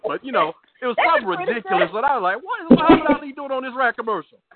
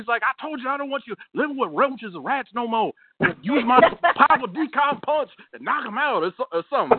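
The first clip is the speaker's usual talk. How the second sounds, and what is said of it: Imitates another person's voice. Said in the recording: “That's a pretty good imitation”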